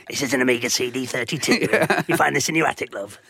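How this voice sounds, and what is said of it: David Dickinson antiques-dealer impression. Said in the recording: “You're going to be the equivalent of David Dickinson, shifting old consoles ... Good impression.”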